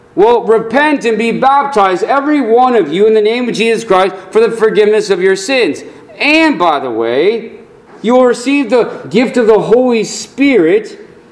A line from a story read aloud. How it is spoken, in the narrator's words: Peter quickly answered